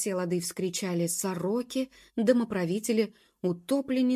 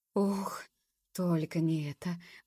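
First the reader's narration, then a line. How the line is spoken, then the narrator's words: Overwhelmed whisper. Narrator (Russian): прошептал Мимулус, для которого услышанное стало последней каплей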